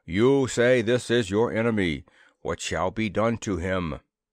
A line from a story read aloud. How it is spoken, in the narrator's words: boomed this individual cordially